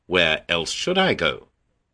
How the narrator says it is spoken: Petit Pierre chuckled and said

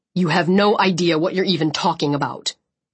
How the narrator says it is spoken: Chubbs growled

